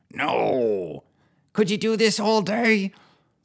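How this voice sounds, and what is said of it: Childish growly imitation of man's voice. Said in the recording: “growls in a childish impersonation of a grown man's voice”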